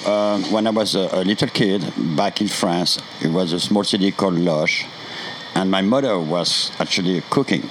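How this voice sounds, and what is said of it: French accent. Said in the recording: “you're French with that incredible accent.”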